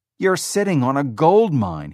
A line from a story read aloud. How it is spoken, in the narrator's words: he shouted